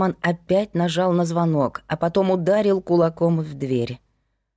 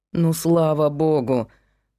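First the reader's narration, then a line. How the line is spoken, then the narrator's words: Grumble. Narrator (Russian): проворчал Герман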